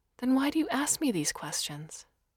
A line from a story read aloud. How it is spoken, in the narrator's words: Her voice remained even and level despite the clear anger